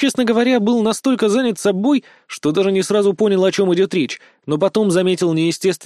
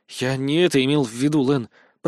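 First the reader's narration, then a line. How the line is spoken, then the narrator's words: Muttered. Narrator (Russian): пробормотал я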